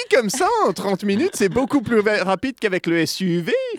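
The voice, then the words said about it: Put-on posh non-Parisian French accent. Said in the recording (French): “J'arrive pas à retrouver d'où vient cet accent, mais c'est clairement pas un accent de parisien, ça. ... C'est pas un accent parisien, clairement pas. ... C'est l'accent de droite, ... l'accent l'accent euh, parisien dijonnais.”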